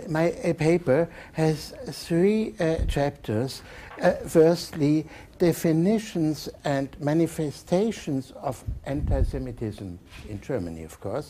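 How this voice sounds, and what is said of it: Strong German accent in English. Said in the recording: “giving do a bad treatment in English language ... the true German bad accent you will hear”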